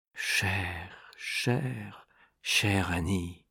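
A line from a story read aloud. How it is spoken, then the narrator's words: Repeated softly. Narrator (French): Il répéta tout bas, plusieurs fois de suite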